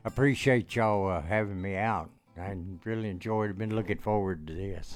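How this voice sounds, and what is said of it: Speaks with a distinctive regional accent. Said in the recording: “I love your sound already ... I love to hear you talk. You've got this cool accent.”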